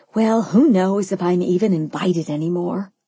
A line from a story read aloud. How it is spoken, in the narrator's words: I sighed dramatically